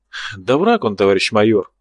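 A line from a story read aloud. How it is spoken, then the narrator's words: Sighing. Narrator (Russian): вздохнул Чернявый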